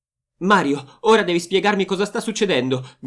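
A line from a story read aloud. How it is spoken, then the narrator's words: Shouting. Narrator (Italian): grida Rossella a Mario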